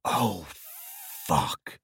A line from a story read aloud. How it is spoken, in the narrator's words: whispered